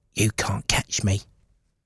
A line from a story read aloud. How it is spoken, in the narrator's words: whispered